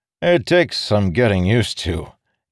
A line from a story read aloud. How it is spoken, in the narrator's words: Dalinar's heir said with a chuckle